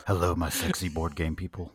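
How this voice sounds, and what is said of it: Weird put-on voice. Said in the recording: “If you use a weird voice in your intro, they're not going to know who you are. ... apparently we're just doing weird voices”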